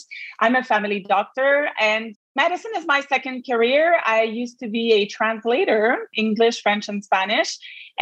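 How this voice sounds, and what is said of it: Quebec French accent. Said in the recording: “I practice in Quebec, as you can hear from my accent.”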